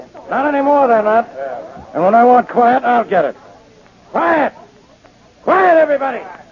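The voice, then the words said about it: Loud shouting voice. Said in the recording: “can't you people be quiet? ... if you lower your voice”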